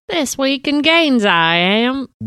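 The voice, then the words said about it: Put-on My Fair Lady accent. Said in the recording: “Whoa. Holy shit. What is that? ... It's my Fair Lady accent.”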